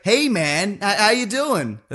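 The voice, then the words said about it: Vague American accent. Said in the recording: “a very good vague American accent”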